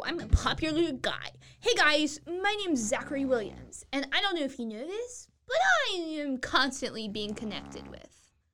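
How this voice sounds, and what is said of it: Imitates another person's voice. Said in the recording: “That was my you impression.”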